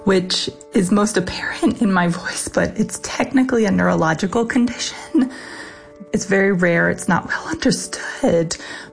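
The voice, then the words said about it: Whispery, hoarse voice cutting out. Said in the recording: “my voice is a little whispery and kind of hoarse and cuts in and out”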